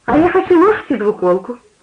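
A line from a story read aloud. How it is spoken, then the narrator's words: Cheerful. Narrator (Russian): сказала она весело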